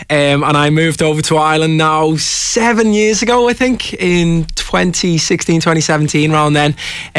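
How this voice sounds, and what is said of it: Liverpool English accent. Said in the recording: “I'm originally from Liverpool, as you can probably tell by the accent.”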